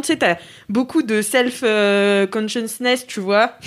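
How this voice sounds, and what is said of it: English words in American accent. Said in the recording (French): “Quel accent On dirait que je suis partie à Miami l'année dernière.”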